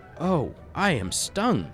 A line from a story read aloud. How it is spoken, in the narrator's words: he exclaimed